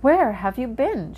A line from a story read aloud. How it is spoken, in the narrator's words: cried